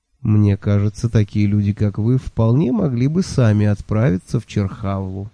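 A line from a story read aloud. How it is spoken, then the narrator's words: Tempting salesman's tone. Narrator (Russian): соблазнительным тоном владельца только что открывшегося бюро путешествий сказал халиф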